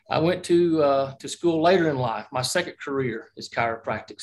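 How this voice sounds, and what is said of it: Southern Alabama accent. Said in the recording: “I'm originally from Alabama. You probably can recognize that I don't have the New York accent”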